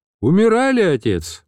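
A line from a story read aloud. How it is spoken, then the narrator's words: Cheerful reply. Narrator (Russian): бодрым голосом отозвался я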